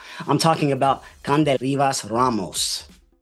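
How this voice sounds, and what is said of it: Accented pronunciation of a name. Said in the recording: “I tried with my accent.”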